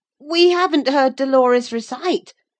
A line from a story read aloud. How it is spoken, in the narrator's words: said Rollo desperately